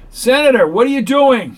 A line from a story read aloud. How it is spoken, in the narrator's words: He cried